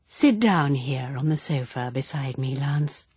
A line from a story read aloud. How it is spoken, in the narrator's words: She said in her thick, soft voice